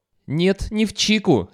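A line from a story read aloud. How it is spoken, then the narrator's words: Furious shout. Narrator (Russian): яростно закричал Шварц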